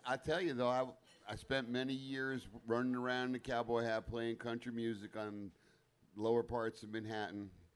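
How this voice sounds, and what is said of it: Country boy accent. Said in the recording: “this country boy accent you have”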